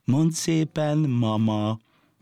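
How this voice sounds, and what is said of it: Soft, gently ringing voice. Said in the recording (Hungarian): “szeliden rámosolygott, lágyan csengő hangon szólt”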